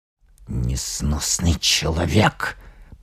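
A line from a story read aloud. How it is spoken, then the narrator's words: Mutter. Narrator (Russian): пробормотал Малдертон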